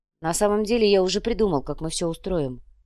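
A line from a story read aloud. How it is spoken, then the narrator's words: Quiet. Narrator (Russian): негромко произнес Ваня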